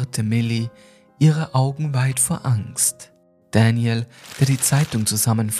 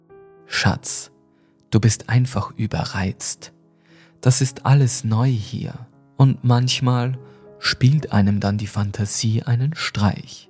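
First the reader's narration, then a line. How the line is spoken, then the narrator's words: Calm. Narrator (German): fügte Daniel ruhig hinzu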